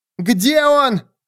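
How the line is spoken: Shouting. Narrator (Russian): кричала Стави

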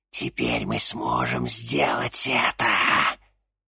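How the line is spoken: Hissing. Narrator (Russian): прошипела Анаит

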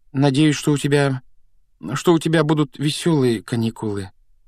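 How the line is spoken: Uncertain, taken aback. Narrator (Russian): неуверенно выдавила Гермиона, явно пораженная нелюбезностью дяди Вернона

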